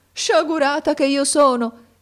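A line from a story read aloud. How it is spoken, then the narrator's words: Exclaiming. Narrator (Italian): esclamò essa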